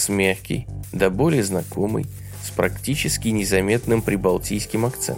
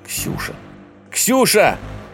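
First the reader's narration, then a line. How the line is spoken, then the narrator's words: Shouted reply. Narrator (Russian): крикнул в ответ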